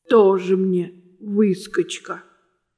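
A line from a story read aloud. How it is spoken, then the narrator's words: Envious grumble. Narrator (Russian): завистливо проворчал треугольник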